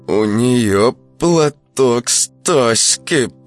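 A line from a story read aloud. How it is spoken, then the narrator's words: Through clenched teeth. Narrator (Russian): процедил сквозь зубы Яшка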